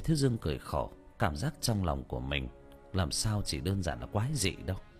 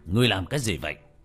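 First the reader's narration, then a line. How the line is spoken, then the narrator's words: Loud shout. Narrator (Vietnamese): Phục Minh Tử quát lớn một tiếng với cậu bé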